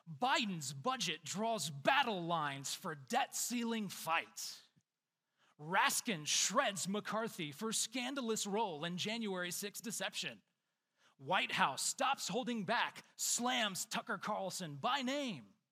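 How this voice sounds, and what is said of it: Dramatic wrestling announcer voice. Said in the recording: “in my best WWE announcer voice.”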